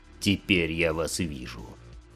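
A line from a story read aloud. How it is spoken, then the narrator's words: Grumbling. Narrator (Russian): проворчал Ран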